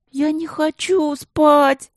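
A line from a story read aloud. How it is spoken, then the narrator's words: Whining. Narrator (Russian): заныла Каролинка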